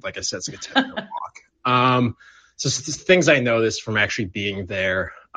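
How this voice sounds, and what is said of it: Out of breath, breathless speech. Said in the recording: “I'm a little out of breath.”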